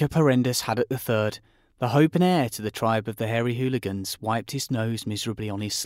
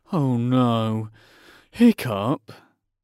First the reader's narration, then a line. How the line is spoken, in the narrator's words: groaned Dog's Breath the Durbrain and most of the other boys